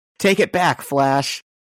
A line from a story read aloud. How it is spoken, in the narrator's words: yelling